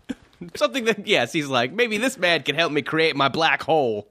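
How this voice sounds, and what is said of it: Australian accent impression. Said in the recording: “That was my Rupert Murdoch impression ... That was a really good Australian accent”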